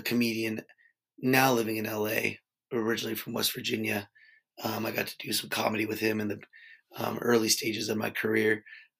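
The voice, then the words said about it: Hoarse, strained voice. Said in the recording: “Laryngitis is not good to be trying to record an opening for a podcast episode”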